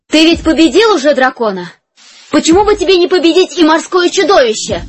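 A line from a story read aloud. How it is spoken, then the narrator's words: Loud queen's question. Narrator (Russian): громко спросила королева у своего мужа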